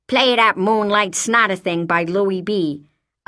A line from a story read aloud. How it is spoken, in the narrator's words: I'd snarl in my raspy mobster's voice